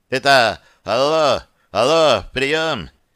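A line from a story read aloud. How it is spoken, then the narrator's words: Hoarse yelling into microphone. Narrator (Russian): хрипло заорал в микрофон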